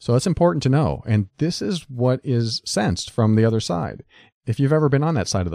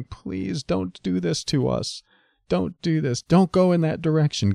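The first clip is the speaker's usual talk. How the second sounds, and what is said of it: Desperate, pleading voice. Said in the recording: “You can hear it in my voice when I just role play that. That's coming out of fear. It's coming out of desperation.”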